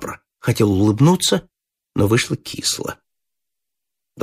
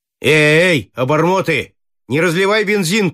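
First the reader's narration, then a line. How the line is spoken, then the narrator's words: Shouted. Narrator (Russian): крикнул пилот мальчишкам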